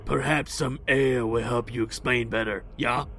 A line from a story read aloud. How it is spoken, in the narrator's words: Egric barks in Latin